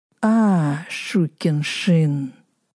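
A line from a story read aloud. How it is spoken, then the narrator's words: Gloating hiss. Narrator (Russian): прошипел злорадно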